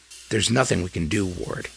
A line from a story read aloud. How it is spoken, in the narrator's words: he said quietly